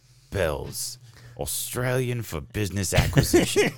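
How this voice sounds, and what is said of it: Put-on Australian accent. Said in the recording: “That's my best Australian accent.”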